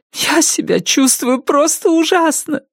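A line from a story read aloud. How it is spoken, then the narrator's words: Sobbing woman. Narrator (Russian): рыдала Салли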